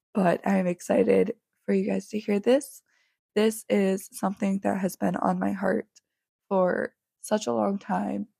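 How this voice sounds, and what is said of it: Raspy, flu-hoarse voice. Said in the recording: “my voice is very raspy throughout this whole episode”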